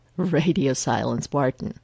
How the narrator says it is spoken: Phil says, but he's not even trying to hide the chuckle in his voice

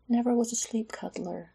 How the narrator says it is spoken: she whispered, not to wake Garen

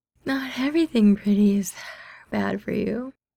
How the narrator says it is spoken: Mingyu yawns in a considering tone

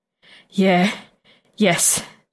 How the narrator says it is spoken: Anton pants

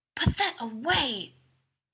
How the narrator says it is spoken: he hisses

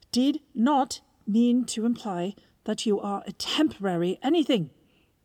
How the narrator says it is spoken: raising his voice

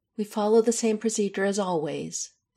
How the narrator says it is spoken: Isabel says firmly

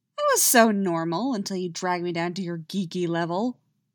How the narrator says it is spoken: Stiles grumbles

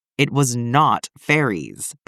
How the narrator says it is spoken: Peter growls

